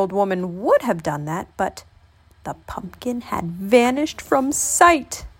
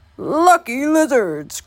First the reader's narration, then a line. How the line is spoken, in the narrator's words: croaked the old man